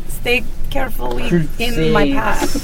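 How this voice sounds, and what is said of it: Put-on Russian accent. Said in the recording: “I have developed a Russian accent”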